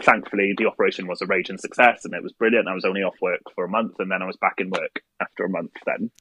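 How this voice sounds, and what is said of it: Noticeable, captivating accent. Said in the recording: “the way you said them, like, in, like, the accent, I was like, I'm fucking mesmerized”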